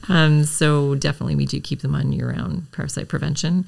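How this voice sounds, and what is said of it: Strained, fading voice. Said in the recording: “apparently I'm losing my voice ... mid-interview”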